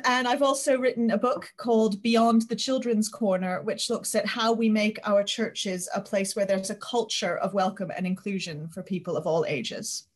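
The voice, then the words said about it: American accent, not local. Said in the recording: “your accent isn't local, I would say. ... I grew up in New Haven, Connecticut, in the US”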